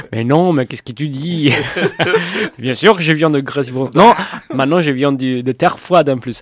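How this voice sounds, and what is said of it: Sicilian Italian accent in French. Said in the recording (French): “Tu as un bien charmant accent qui sonne pas du Grésivaudan... je viens de la Sicile.”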